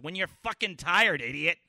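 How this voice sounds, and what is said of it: Imitates another person's voice. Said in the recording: “And this is how her voice goes... This is my impersonation of Ms. D.”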